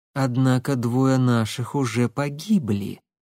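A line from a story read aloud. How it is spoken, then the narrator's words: Insinuating. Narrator (Russian): вкрадчиво проговорила Алекса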